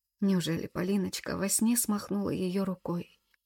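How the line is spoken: Hoarse, grief-stricken wail. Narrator (Russian): прохрипел и завыл от горя

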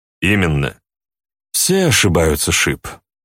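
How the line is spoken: Calm reply. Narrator (Russian): спокойно ответил Люцифер

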